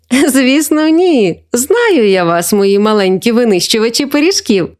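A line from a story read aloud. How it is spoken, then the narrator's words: Laughing grandmother. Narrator (Ukrainian): засміялася бабуся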